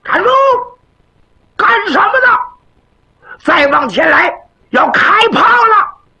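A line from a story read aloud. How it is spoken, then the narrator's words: Soldier shouting. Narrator (Chinese): 巡逻的军兵，双手拢在一起，人家就喊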